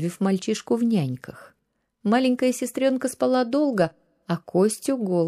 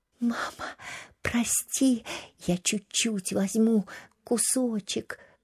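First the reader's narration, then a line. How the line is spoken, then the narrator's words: Whispered. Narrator (Russian): шептал Костя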